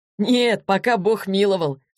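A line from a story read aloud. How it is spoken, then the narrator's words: Laughing. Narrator (Russian): засмеялся Егор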